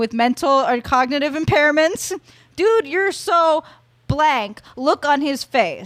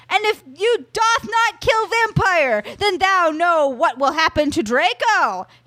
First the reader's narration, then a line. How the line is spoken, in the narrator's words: he shouted